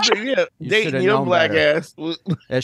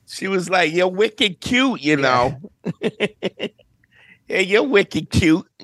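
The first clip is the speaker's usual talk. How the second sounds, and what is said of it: Put-on Boston accent. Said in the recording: “that Boston accent do get a brother”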